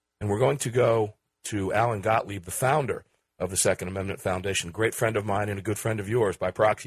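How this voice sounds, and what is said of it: Hoarse voice, losing voice. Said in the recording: “as I get over my cold. You can probably hear it in my voice... as I lose my voice”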